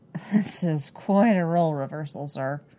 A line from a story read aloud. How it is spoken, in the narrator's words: Cody grumbles